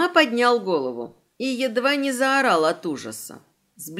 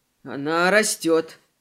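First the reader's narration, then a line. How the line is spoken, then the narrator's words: Muttered. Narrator (Russian): пробормотал Селим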